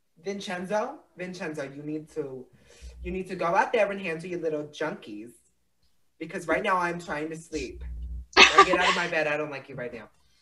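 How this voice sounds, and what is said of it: Put-on Italian mob wife accent. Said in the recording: “the Italian accent”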